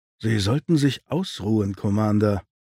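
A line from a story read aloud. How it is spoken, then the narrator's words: Quiet speech. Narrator (German): sagte Riker leise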